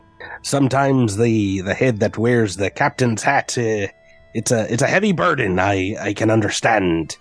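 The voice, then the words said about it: Gravelly pirate character voice. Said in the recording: “this gravel in my voice sounds really good this week as a pirate... thank you so much for scarring me lungs”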